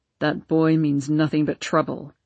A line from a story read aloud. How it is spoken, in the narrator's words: grumbled Papa